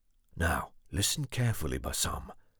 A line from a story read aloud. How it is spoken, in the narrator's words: Amar whispered